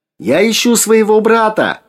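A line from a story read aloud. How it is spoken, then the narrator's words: Shouting over engines. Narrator (Russian): прокричала, пытаясь перекрыть шум моторов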